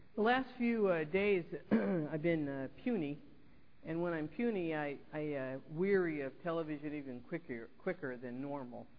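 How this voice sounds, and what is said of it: Rough, sick-sounding voice. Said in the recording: “I apologize for my voice. It's kind of yucky today.”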